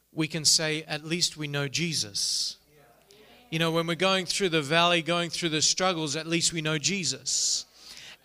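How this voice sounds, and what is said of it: Australian accent. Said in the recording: “I don't know if you're picking up an accent or not... originally we are from Australia. I grew up in the city of Melbourne”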